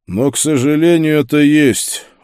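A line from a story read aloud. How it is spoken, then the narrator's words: Tired. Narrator (Russian): устало сказал Пауль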